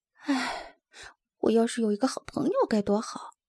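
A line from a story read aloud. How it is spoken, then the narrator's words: Sighing inner thought. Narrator (Chinese): 他想着，叹了口气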